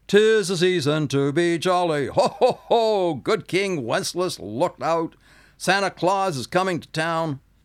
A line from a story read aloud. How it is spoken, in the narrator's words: Bernard's, I began bellowing out